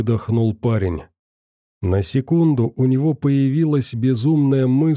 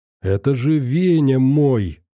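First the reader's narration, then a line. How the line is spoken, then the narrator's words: Joyful. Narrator (Russian): радостно сказал толстяк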